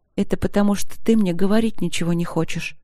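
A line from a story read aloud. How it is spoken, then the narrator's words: Hurt whisper. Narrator (Russian): обиженно прошептала она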